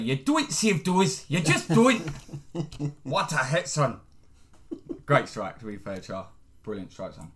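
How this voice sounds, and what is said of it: Imitates a football commentator's voice. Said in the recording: “my Andy Gray impression”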